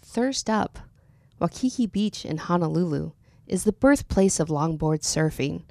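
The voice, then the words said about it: Smooth NPR-style radio announcer voice. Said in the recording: “you have a really good radio voice ... do your NPR voice ... like radio style”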